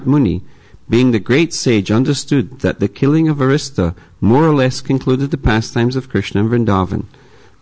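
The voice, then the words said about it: Noticeable non-native English accent. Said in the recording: “I hope all the English understood My accent.”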